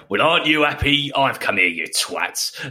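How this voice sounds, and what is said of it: Put-on Australian accent impression. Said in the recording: “Just put on an Australian accent ... That's a really good impression, mate. That's a really good one. ... Working on my Billy impression.”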